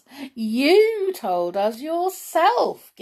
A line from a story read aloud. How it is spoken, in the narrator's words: giggled Doris